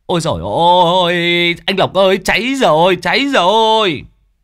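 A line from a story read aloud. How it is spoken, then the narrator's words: Shouted in alarm. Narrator (Vietnamese): một người chạy vào hét lên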